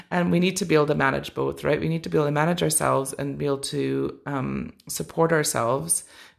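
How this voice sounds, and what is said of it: Tired, run-down voice. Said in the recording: “you can probably hear it in my voice. I've been quite run down recently”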